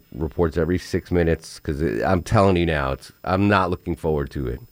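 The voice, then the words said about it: Hoarse, fading sick voice. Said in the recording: “I thought I was over my illness, but I'm losing my voice.”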